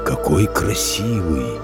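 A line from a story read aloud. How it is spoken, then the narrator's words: Giant's whisper. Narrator (Russian): прошептал великан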